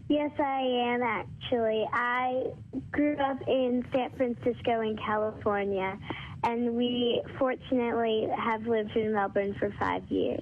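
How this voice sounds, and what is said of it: American accent. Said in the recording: “I'm detecting a bit of an accent there ... you've still got your American accent”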